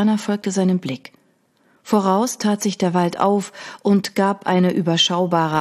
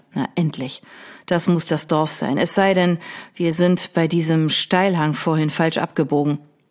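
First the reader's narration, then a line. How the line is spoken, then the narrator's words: Growling. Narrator (German): knurrte Alexander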